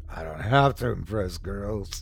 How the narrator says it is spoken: he slurred

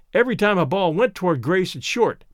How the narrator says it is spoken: Daddy groaned

